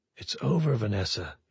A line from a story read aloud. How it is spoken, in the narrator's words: he said softly